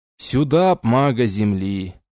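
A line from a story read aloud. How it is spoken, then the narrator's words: Sad drawl. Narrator (Russian): протянул он печально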